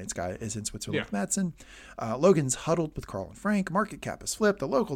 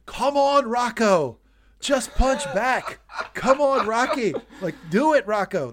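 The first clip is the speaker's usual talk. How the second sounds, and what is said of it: Yelling impression of a boxing trainer. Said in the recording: “I'm yelling... I'm Apollo Creed in Rocky's corner yelling... that's what I'm screaming... You're doing Rocky 3 Apollo right now?”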